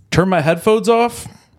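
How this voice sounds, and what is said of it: Rapper-style impression of a friend. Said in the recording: “This is my impression of Mac as a rapper.”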